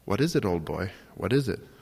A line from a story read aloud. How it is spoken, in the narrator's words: says, smiling faintly, delighted to be providing excitement for the dog